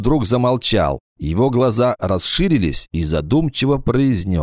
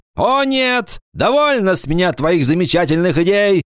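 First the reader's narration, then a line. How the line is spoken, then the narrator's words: Male shout. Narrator (Russian): закричал он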